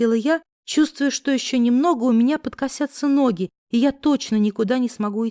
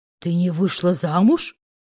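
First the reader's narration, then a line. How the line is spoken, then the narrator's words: Growling. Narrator (Russian): прорычал Маркелыч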